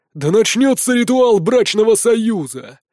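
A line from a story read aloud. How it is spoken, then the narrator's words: Roared. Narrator (Russian): взревел Узимир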